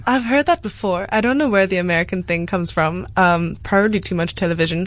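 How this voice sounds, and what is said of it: European accent with American twang. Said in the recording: “accent, you know, there's a sort of twang of American, a little flavor of what it sounds like when you're German or Dutch and you're adding the American into it”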